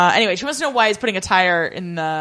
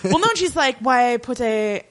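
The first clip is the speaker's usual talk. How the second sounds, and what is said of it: Put-on French accent. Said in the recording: “I'm giving her a French accent.”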